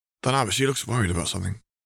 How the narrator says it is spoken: Sirius muttered

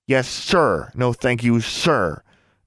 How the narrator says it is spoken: Anna responded through clenched teeth

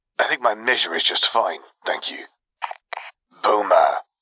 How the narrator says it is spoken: Cody growled low in warning

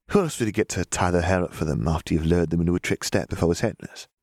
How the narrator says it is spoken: She giggled

